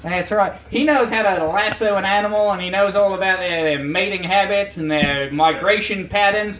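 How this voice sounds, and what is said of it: Put-on Australian accent. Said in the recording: “I can't be having there be actual Australians there, the thin facade of my voice ... most of the accent, a couple buzzwords.”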